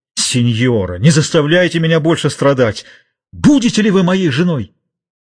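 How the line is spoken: Exclamation. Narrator (Russian): воскликнул

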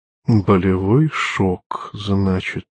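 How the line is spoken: Mutter. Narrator (Russian): пробормотал Лючана

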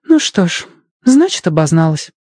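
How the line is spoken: Sighing. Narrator (Russian): вздохнула она

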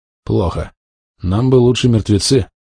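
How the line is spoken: Sighed. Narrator (Russian): вздохнул

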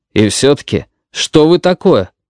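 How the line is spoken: Irritated question. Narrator (Russian): раздраженно спросил Пентон

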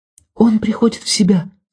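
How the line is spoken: Whisper. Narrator (Russian): сказала Ольга шепотом

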